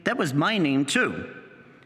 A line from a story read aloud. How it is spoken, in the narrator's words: he exclaimed